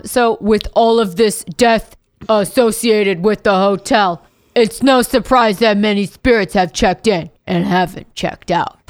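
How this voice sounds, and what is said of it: Imitates another person's voice. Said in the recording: “That was my Baggins impression. ... That was extremely authentic. ... I felt like you channeled him.”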